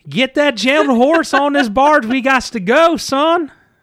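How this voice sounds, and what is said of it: Bad put-on southern accent. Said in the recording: “Not just a southern accent, but a bad one.”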